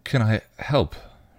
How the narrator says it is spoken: she asked gently

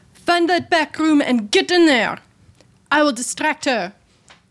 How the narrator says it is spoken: shout through my telepathy

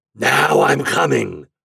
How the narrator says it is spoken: roared Winter from the mountains

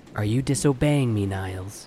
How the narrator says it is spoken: said

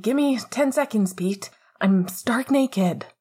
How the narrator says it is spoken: Remus called out

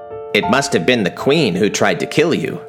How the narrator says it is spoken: they said

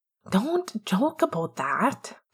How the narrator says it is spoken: Pete hisses

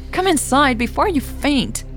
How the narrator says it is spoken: Becker yelled

